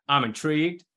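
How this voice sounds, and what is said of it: Poor Jerry Jones impression. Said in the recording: “got to do it the voice of Jerry Jones ... That's not a good voice”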